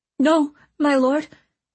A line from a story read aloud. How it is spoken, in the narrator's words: the girl stammered fearfully